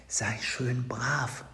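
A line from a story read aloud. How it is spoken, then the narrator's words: Whisper. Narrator (German): flüsterte er dem Tierchen zu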